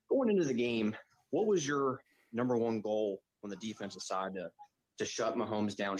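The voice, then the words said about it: Philadelphia-area Delaware Valley accent. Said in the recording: “Does that not sound like a Delaware Valley accent? ... Kind of, doesn't it? ... like where we are in the Philly greater PA region.”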